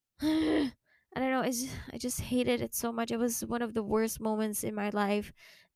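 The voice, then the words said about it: Shaky voice, on the verge of tears. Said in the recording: “my voice is shaking. I'm about to cry... I'm literally crying”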